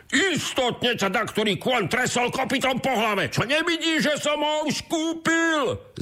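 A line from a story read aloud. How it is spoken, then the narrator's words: Shouted. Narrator (Slovak): zakričal druhý boháč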